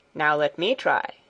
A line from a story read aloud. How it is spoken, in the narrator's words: said